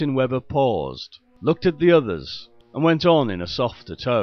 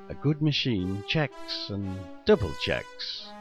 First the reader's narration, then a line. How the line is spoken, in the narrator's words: The faint murmur